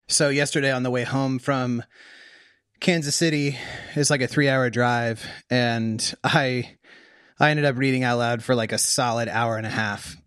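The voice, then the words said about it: Worn, tired voice. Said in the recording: “my voice is a little worn.”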